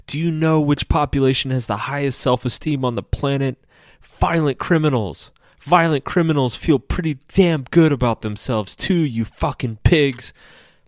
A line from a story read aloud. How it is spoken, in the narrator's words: him screaming